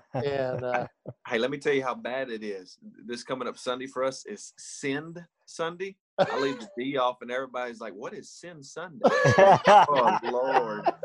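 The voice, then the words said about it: Thick Southern American accent. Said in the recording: “thicker Southern accents than I do”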